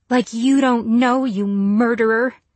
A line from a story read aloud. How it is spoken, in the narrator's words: she spat